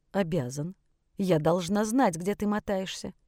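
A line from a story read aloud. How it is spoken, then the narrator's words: Cold. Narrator (Russian): холодно произнесла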